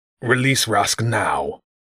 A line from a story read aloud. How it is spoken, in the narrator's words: Growth snarled